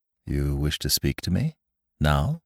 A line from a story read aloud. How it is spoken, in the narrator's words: asked in a low tone